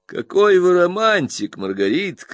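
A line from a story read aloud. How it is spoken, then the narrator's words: Merry laughing. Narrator (Russian): еще веселее засмеялся Стирфорд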